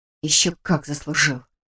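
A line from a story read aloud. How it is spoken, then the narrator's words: Suppressed furious hiss. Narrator (Russian): прошипела, отчаянно стараясь не шуметь, но кипящая внутри ярость требовала выхода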